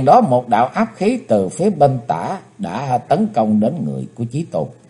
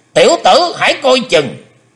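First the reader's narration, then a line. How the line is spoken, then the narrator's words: Sudden loud shout. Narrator (Vietnamese): Hải Âu quái khách quát lớn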